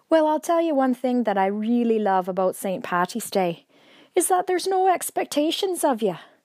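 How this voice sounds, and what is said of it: Put-on Irish accent. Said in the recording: “every St. Patty's Day, I decide I'm going to speak in an Irish accent. It's all that theatre training”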